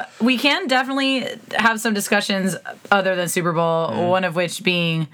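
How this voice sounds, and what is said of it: Usual voice. Nothing is said of it.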